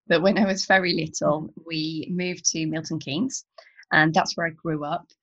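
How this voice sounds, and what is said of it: Glasgow Scottish accent. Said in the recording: “I was actually born in Glasgow, as I'm sure you can tell by the accent.”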